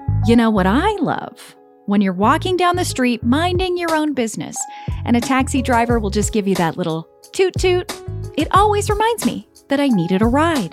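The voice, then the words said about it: Sarcastic delivery. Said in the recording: “in case you couldn't tell, I was being sarcastic.”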